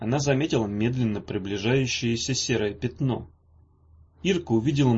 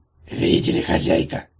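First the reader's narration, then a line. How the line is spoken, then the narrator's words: Breathy exhale. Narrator (Russian): выдохнул кикимор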